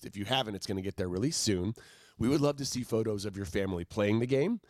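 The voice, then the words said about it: Subdued, lower-pitched voice. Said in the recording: “I'm more excited than my voice is. I would normally be like an octave higher about this.”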